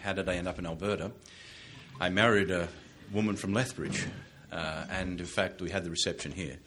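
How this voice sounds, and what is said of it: Australian accent. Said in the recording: “You'll notice that from my accent and from the introduction, I grew up in Australia.”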